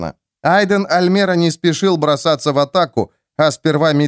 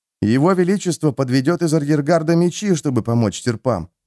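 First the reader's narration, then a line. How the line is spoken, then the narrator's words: Whisper. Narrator (Russian): шепнул кто-то из зрителей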